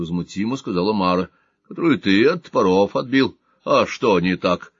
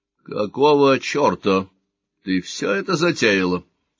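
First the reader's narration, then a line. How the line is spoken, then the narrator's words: Angry, barely restrained question. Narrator (Russian): спросил он сердито, едва сдерживая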